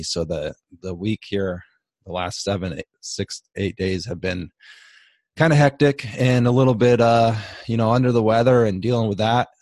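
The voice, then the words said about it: Slightly raspy, sick voice. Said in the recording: “I've been under the weather. I've been sick. My voice is a little raspy”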